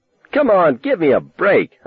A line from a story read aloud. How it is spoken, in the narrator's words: I yelled